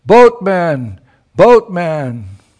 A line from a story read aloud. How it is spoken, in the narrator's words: Sri Radha, she cleared her voice and she called out loudly